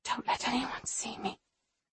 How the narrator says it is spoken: I whisper

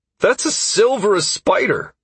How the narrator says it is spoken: Constantine exclaimed excitedly

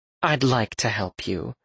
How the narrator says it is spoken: Lydia said in a conciliatory tone

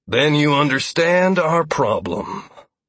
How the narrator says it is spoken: Lazarus said grimly

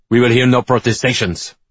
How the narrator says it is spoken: Bourbon snaps

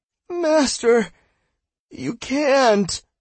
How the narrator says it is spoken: Cell called brokenly

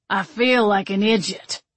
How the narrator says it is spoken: Stan grumbled

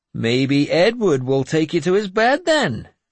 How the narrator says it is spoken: Finan said happily

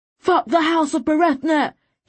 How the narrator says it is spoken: he screamed at Sobran

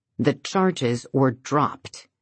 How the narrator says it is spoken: David says more firmly

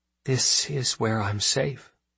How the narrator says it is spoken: Ari would whisper

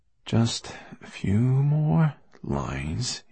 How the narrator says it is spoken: he murmured

